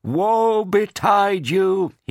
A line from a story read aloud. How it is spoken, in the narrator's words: he shouted